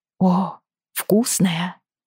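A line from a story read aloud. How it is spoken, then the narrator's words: Dreamy. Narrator (Russian): произнесла она мечтательным тоном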